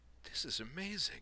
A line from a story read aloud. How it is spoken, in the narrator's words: murmured